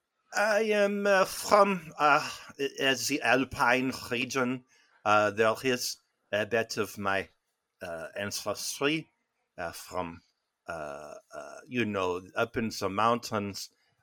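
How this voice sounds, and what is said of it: Put-on French accent. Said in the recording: “What part of France are you from? Your accent sounds totally romantic.”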